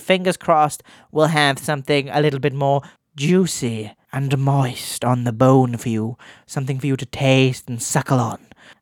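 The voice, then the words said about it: Odd put-on voice. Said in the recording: “I don't know why I'm doing that voice”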